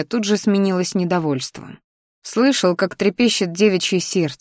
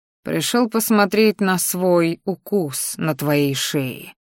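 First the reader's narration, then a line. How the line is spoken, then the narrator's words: Growling. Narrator (Russian): рыкнул я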